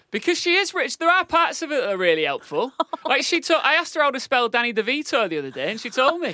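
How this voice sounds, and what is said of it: Northern English accent. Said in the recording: “my northern accent... the northern twang”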